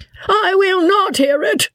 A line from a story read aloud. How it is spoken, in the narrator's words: squeaked out Joss at the top of his voice